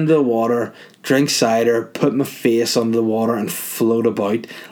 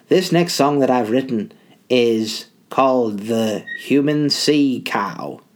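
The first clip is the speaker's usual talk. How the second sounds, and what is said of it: Put-on Liverpool accent. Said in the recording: “I don't know what accent it is. He's Liverpoolian. We're the Four Beatles.”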